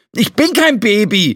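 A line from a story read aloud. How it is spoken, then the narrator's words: Angry retort. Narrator (German): erwiderte Flo wütend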